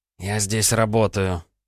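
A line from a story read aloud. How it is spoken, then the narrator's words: Said through teeth. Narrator (Russian): процедил Егор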